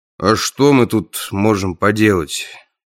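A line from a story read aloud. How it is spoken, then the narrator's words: Sighing. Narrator (Russian): вздохнул он в ответ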